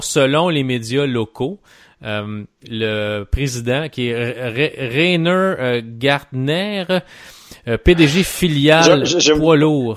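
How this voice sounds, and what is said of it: Put-on German accent in French. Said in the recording (French): “J'aime ouais. beaucoup ton accent allemand.”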